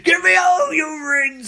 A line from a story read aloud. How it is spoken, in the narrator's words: He screams